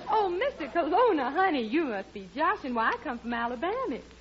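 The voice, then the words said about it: Put-on southern accent. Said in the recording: “a girl with a southern accent”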